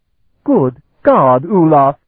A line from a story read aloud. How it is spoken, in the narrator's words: Itania exclaimed